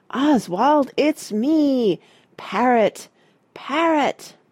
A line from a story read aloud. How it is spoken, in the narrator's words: he shouted